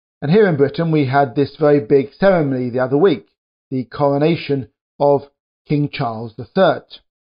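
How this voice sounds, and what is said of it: British accent. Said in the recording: “You can probably tell from my accent that I'm British.”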